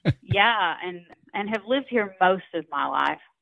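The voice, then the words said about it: Georgia Southern accent. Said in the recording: “I grew up about 30 minutes south of Chattanooga, Tennessee, in Dalton, Georgia. I know you can't tell that listening to this accent.”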